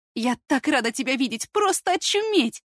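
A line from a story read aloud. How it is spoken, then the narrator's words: Joyful confession. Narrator (Russian): Радостно признается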